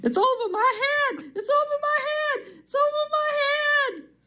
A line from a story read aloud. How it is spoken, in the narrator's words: She kept yelling